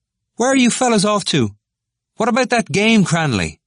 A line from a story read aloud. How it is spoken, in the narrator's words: They parlayed in shouts across the still air